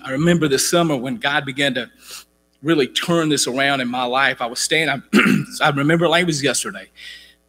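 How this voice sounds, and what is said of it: Voice out of shape, not loud. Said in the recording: “sorry about my voice. I haven't been preaching a lot this summer. My voice is not in good shape. You guys know I used to be loud for an hour up here”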